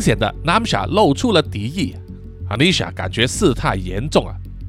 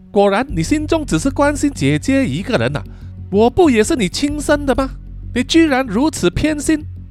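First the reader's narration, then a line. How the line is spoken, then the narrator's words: Mocking laughing. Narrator (Chinese): 南夏笑着说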